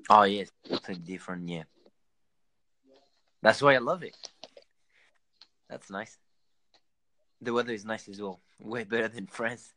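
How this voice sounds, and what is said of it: French accent with slight Australian tinge. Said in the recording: “my accent is a mix between a little bit Australian and maybe 70% French and 30% Australian”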